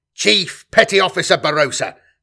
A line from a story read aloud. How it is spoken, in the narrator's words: snapped Semper